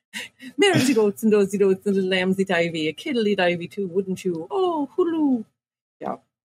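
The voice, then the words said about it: Convincing put-on Irish accent. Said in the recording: “You do a great Irish accent.”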